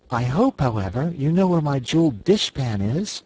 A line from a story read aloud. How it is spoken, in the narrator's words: said the Cookie Cook anxiously